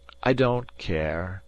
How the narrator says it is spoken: he persisted gloomily

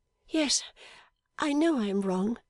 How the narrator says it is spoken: she pleaded timidly

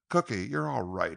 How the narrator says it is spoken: he exclaimed

